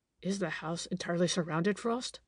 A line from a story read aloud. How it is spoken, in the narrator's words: I heard him whisper